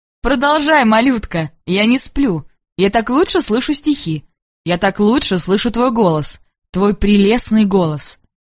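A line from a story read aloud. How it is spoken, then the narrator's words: Laughing speech. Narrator (Russian): начинал смеяться и говорил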